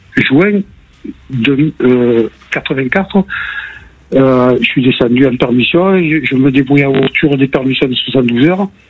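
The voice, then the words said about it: Marseille southern French accent. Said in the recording (French): “j'habite Marseille ... on avait entendu à l'accent”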